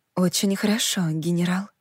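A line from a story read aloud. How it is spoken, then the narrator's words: Whisper. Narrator (Russian): прошептала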